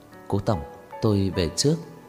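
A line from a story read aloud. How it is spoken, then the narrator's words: Soft, quiet voice. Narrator (Vietnamese): nhỏ giọng nói với Cố Dư Sinh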